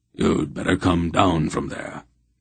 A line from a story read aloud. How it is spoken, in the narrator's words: Wolf said gravely